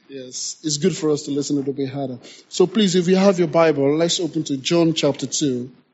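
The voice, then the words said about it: Noticeable accent, harder to follow. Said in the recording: “because of my accent as well, you have to listen a little bit harder”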